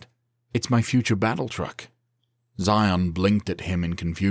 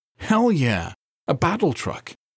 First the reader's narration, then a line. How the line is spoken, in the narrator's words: his friend exclaimed